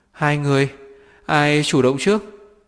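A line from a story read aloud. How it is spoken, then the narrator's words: Trembling question. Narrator (Vietnamese): Trần Chỉ Tình run rẩy hỏi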